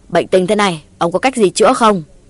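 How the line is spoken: Shouting question. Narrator (Vietnamese): Chử Cao Sơn quát tháo một hồi hỏi cụ Tà Ao

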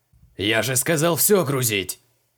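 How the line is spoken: Barked. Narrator (Russian): рявкнул Амбал

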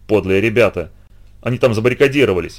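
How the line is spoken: Grumble. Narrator (Russian): проворчал он

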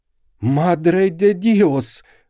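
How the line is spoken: Cried out. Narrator (Russian): вскрикнула она

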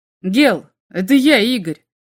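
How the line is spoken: Shout. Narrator (Russian): на всякий случай крикнул капитан громовержца

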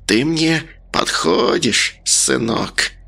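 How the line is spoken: Hissing. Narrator (Russian): Она прошипела

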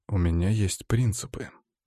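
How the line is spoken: Calm voice. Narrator (Russian): таким же спокойным голосом ответил студент

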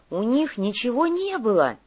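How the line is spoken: Indignant report. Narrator (Russian): возмущенно сообщил Иголка

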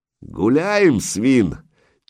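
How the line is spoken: Tiger-like roar. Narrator (Russian): Тигром рыкнул берсерк

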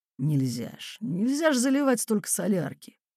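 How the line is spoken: Distinct sleep-mumble. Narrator (Russian): во сне он отчетливо бормотнул

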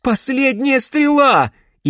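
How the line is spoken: Hysterical shout. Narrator (Russian): истерично выкрикнула она

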